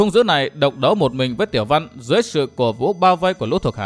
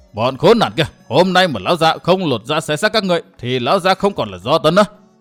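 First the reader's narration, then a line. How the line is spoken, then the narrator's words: Furious roar. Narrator (Vietnamese): Thấy thuộc hạ bị giết chết liên tục, Hắc Ưng Do Tấn gầm lên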